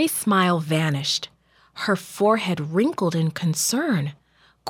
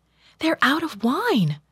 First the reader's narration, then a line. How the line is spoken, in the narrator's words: she told him anxiously